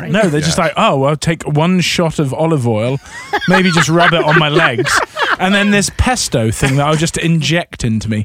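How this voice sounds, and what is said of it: British accent. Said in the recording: “I love your British accent.”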